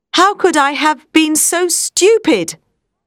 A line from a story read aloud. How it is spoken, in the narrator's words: He exclaimed